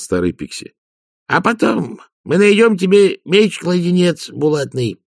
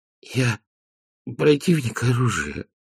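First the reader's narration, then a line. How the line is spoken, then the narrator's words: Strained wheeze. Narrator (Russian): просипел Веренс, пытаясь принять сидячее положение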